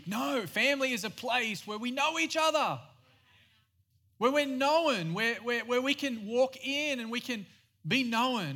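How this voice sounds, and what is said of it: Australian accent. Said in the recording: “I am Australian. Yes, I have a weird accent.”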